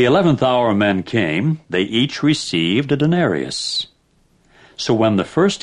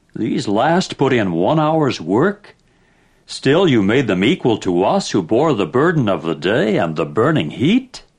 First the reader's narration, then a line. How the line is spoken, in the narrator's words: they began to murmur against the householder and said